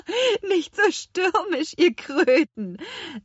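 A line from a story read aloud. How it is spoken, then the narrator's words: Little witch laughing. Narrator (German): lachte die kleine Hexe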